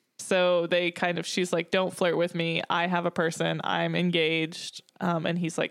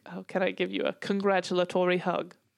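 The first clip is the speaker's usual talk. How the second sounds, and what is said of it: Weak attempt at British accent. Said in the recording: “I don't have a very good British accent”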